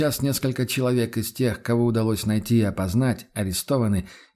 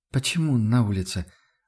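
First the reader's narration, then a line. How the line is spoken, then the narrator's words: Confused question. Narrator (Russian): растерянно спросила она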